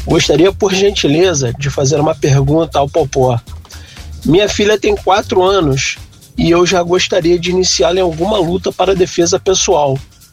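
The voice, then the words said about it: Rio de Janeiro Brazilian accent. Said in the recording (Portuguese): “ele não precisava nem falar que era do Rio. O sotaque dele já.”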